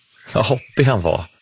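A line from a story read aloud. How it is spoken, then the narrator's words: Laughing. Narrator (Swedish): säger Brum och skrattar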